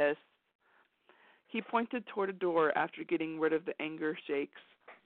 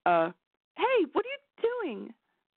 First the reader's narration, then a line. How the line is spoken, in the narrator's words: She cried